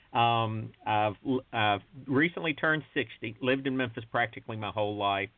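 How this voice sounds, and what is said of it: Southern US drawl, Memphis. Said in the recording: “a native Memphian, if the southern drawl does not give that away ... the way we talk here in the Deep South”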